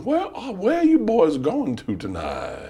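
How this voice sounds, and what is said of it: Drunk South Carolina Southern accent. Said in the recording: “My favorite Southern accent is drunk man from South Carolina, borderline gay. It sounds borderline gay.”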